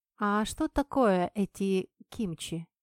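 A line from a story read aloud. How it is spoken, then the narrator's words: Plain. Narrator (Russian): спросила я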